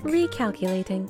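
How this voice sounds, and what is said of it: Robot voice. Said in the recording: “robot voice ... my new robot voice”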